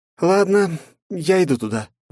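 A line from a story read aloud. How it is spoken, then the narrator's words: Sighing. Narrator (Russian): вздохнув, произнесла Вета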